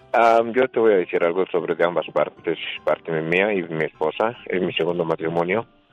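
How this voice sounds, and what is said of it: Smooth, velvety announcer-like voice. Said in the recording (Spanish): “con esa voz de terciopelo ... Tiene voz de locutor.”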